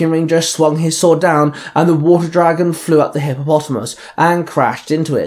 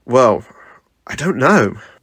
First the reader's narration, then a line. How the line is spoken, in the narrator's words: the Red Ranger sighed